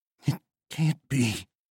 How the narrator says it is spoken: Balmer whispered, barely audible over the wind

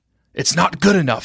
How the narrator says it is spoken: he said hoarsely

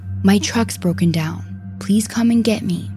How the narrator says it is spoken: she calmly tells him

